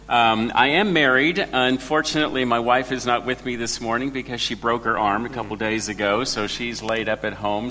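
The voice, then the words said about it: Noticeable foreign accent. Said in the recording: “I'm the guy with the accent in the room”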